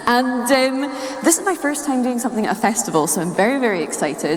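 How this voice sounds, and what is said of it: Scottish accent. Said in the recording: “I only came from Scotland ... accent calibration”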